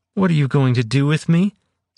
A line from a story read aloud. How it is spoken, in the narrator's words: Celia said, fear evident in her quavering voice